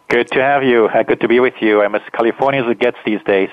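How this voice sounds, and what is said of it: Swiss accent. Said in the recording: “Even my accent is almost Californian. ... No, not quite. ... your Swiss accent”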